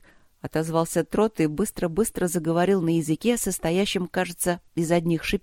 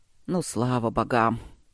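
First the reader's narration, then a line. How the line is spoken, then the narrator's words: Relieved grumble. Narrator (Russian): С облегчением пробурчал Четери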